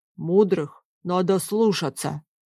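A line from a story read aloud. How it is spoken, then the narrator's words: Deep bass voice. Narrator (Russian): пробасил один из леших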